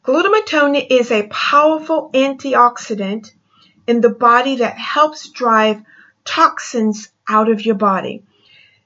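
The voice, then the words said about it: Speaks with a noticeable accent. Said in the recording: “my accent confuses you in the enunciation I've made ... I do have an accent”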